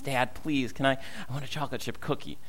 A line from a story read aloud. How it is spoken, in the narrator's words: not as much of a whisper, and he looks at me and says